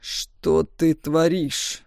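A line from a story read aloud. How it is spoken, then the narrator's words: Hiss through teeth. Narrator (Russian): сквозь зубы прошипел Стоун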